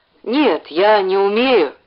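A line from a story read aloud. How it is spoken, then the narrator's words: Mumbling. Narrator (Russian): промямлил Ленька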